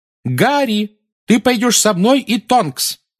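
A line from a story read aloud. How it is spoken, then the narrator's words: Shouting over shrieking. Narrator (Russian): крикнула миссис Уизли поверх нескончаемого визга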